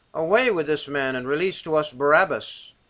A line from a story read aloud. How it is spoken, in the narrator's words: they cried out all at once, saying